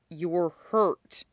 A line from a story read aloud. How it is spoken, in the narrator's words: says, through clenched teeth